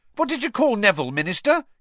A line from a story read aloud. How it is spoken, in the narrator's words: he said excitedly